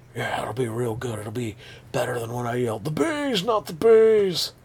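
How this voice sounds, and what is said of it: Imitates another person's voice, badly. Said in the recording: “my horrible Nick Cage impression”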